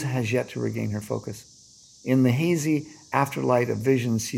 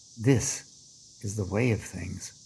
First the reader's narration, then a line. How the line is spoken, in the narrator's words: the old man sighs